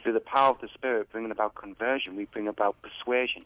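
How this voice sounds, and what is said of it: British accent. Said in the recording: “You're a British boy. ... I think your accent kind of gave it away a little bit.”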